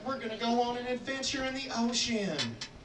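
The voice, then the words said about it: Put-on Southern US accent. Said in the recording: “I did a southern accent.”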